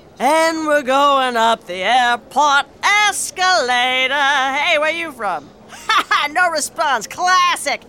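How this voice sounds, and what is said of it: Traveling lounge singer character voice. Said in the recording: “my impression of a traveling lounge singer”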